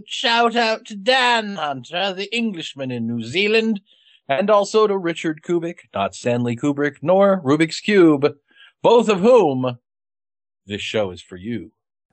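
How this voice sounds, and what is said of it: Deliberately bad English accent. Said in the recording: “bad English accent”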